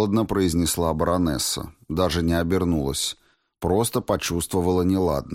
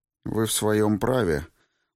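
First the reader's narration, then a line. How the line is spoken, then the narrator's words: Gloomy. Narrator (Russian): мрачно произнесла Вероника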